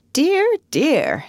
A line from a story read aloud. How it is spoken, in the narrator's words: she exclaimed